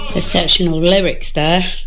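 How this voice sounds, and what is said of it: Sarcastic tone. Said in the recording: “I'm being sarcastic,”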